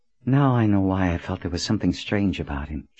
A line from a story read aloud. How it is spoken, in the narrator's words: said as she sighed her relief